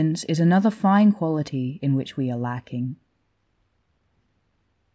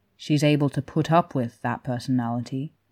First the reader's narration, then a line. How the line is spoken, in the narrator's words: Niu Mingjie said, and now it was his voice that was dry